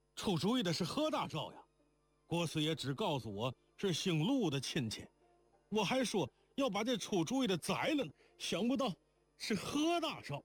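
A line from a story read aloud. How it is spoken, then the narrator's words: Shouting. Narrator (Chinese): 周七早喊起来道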